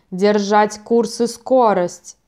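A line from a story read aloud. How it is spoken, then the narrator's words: Roared. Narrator (Russian): проревел Ярл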